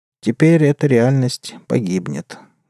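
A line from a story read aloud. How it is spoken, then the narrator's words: Sad cyborg. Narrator (Russian): грустно сказал киборг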